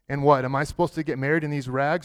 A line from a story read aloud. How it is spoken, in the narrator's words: she asked